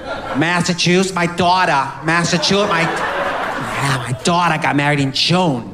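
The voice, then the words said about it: Put-on Massachusetts accent. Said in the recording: “New England accent ... it's a kind of bite, it's sort of a throat bite”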